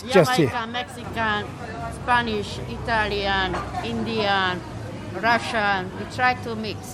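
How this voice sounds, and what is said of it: Foreign accent, Eastern European. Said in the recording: “where is your accent from? ... she's from Eastern Hungary”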